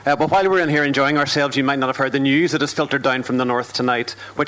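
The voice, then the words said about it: Northern Irish accent. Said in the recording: “I am from the north... the northern accent was recently voted the world's sexiest accent”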